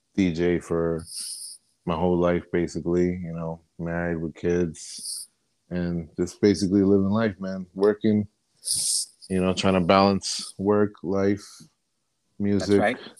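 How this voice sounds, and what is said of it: New Jersey accent. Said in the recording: “I'm from Jersey ... Everybody gets that from my accent and the way I talk ... it's definitely a Jersey ... you could hear it in my voice.”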